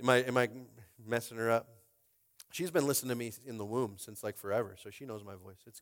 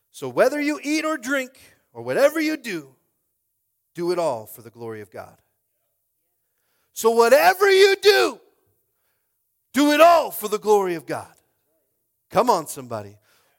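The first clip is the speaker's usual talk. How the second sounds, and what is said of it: Loud shouting preaching. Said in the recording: “I'm shouting too much”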